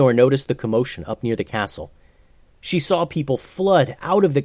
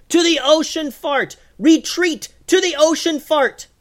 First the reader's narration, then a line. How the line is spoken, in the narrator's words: yelled